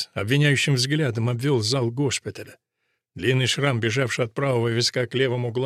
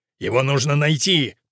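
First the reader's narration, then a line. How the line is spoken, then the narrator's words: Growling. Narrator (Russian): прорычал отец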